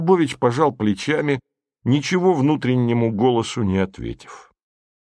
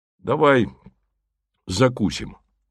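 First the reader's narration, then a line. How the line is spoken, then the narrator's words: Dry. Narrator (Russian): сказал сухо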